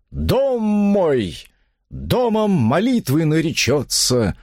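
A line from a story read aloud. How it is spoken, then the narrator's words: Exclaimed. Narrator (Russian): воскликнул викарий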